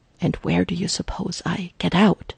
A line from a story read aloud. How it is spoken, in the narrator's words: Jarvis whispers back hotly